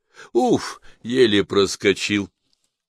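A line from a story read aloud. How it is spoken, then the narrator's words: Exclamation. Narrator (Russian): воскликнул Смит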